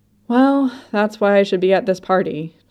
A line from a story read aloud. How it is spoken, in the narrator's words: Chim sighs